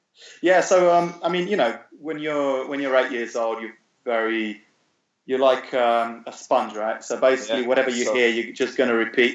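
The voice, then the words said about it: British accent. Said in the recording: “you have this British accent.”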